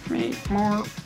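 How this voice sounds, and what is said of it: Poorly done robot voice. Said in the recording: “do the robot voice ... That's a terrible robot voice.”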